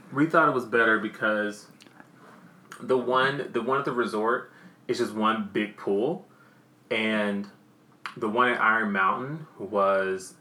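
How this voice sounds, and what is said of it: Southern American accent. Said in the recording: “My damn southern accent just comes out when it wants.”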